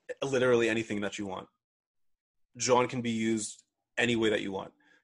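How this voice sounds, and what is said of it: Philadelphia accent. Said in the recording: “Philly talk ... my accent has come through like many, many times today”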